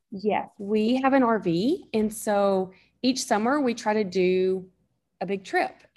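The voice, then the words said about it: Southern US accent. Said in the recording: “your adorable accent? ... It's gotten better through the years. When I met my husband, it was like, hey y'all.”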